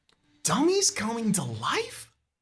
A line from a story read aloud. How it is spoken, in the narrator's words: You gasp